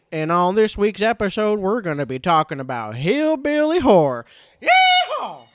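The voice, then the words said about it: Put-on hillbilly-style accent. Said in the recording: “I don't really know what kind of accent I'm going for, but this is what I settled upon. ... Adam Sandler cosplaying one of the mutants from The Hills Have Eyes”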